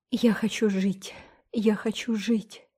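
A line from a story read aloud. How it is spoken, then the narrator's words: Trembling voice. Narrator (Russian): сказала она дрожащим голосом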